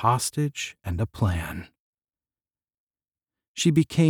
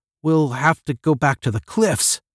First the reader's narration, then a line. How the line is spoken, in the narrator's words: Marcia cried